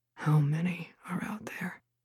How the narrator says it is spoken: Killian asked in a low voice

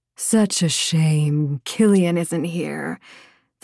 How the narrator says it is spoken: the healer purred

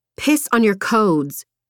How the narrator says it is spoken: she snapped

